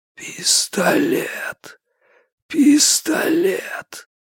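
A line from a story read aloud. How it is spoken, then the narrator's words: Faint whisper. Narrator (Russian): Изо рта Люк Су раздался слабый шепот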